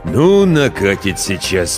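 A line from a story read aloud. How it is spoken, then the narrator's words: Grumbling. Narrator (Russian): проворчал рассказчик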